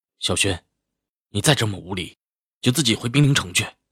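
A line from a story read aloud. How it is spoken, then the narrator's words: Cold sharp rebuke. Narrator (Chinese): 齐然声音一寒，喝道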